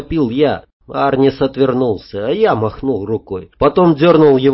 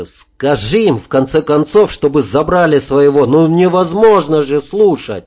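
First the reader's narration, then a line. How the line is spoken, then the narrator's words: Angry uncharacteristic shout. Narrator (Russian): Арнис закричал, сорванное зло, не похоже на себя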